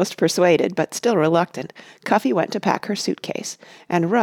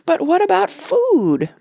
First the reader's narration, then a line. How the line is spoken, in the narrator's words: moaned Cuffy suddenly